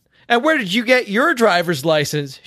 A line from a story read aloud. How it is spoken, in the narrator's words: She shouted